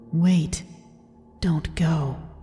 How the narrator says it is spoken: I heard a voice behind my right ear, as if someone had whispered to me

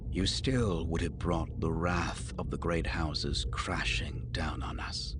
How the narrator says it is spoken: he added, his voice dropping to a low and dangerous whisper

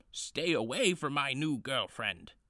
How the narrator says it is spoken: Bumi shouted at his opponents

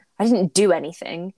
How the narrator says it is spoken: he snaps, like she's already accused him of it

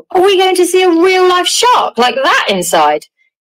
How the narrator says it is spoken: Charlie shouted

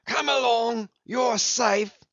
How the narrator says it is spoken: yelled Brown

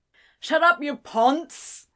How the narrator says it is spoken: shouted from the back of the room

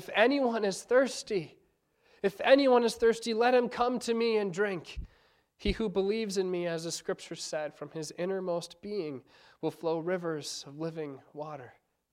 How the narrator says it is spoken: he cries out his message

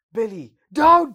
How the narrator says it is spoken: screams Alan

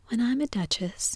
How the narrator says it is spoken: she said to herself, not in a very hopeful tone, though

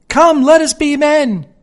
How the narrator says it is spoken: he shouted involuntarily, imitating the chatter of the parrot

